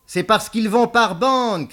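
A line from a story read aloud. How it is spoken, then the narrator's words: Shouted. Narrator (French): cria Beaumasque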